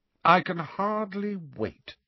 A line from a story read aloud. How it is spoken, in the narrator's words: said Professor McGonagall in a coldly indifferent voice